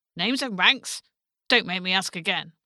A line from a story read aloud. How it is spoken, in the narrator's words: the centurion barked through his tombstone teeth